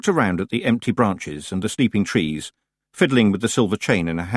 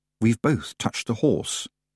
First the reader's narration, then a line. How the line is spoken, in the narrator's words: she said under her breath